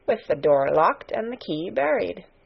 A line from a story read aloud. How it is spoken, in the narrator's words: murmured